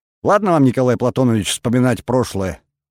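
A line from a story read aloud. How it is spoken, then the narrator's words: Amused grunt. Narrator (Russian): хмыкнул президент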